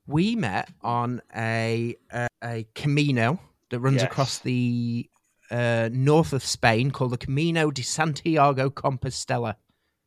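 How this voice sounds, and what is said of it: Yorkshire English accent. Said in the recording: “I heard your accent, and I was like, "You're from Yorkshire, aren't you?"”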